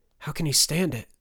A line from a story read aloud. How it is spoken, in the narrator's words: Turner whispered